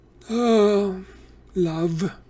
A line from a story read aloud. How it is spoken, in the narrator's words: Grover said dreamily